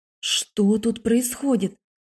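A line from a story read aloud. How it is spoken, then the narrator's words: Whisper. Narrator (Russian): зашептала я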